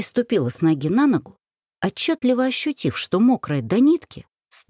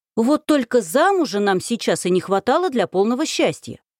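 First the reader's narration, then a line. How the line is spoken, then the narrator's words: Barking, snapping. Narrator (Russian): рявкнула на нее я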